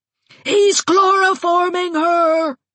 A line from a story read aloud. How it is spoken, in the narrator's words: shrieked Aunt Mouser